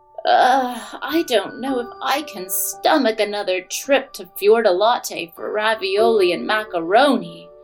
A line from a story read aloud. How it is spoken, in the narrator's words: groaned Jack's big sister